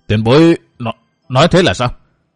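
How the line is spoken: Stammering old man asking. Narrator (Vietnamese): Lão lắp bắp hỏi

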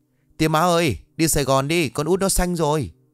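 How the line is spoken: Screaming. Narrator (Vietnamese): hét toáng cả lên

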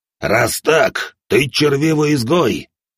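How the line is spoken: Growled. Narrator (Russian): прорычал один из танаанов

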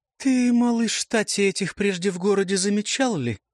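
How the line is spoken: Cooing woman. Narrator (Russian): проворковала красавица

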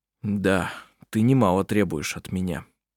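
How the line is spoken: Muttering. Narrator (Russian): пробормотал Хейке Анне-Марии

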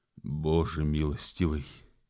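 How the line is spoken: Whispering dragoon. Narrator (Russian): прошептал драгун

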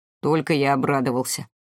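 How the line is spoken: Grumbling. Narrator (Russian): проворчал Игорь

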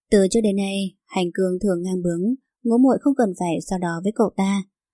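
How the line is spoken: Gentle voice from behind. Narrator (Vietnamese): Giọng nói dịu dàng của Lâm Khuynh từ phía sau lưng vang lên

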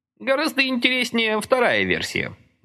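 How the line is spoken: Cheerful. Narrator (Russian): бодро сообщил он

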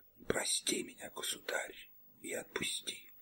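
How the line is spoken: Whisper. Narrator (Russian): прошептав

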